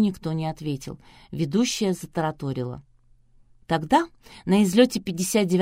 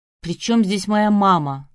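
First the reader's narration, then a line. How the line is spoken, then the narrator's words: Yelled. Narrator (Russian): заорал Полуянов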